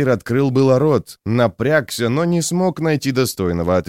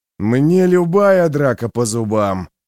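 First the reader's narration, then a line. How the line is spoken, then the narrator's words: Growl. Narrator (Russian): прорычал тот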